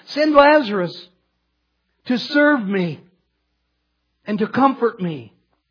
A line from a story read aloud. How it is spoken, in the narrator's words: the rich man pleads to Abraham